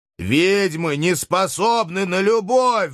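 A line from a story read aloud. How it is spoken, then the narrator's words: Howled. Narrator (Russian): взвыл я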